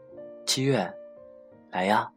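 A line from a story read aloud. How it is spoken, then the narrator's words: Loud call. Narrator (Chinese): 高声的叫着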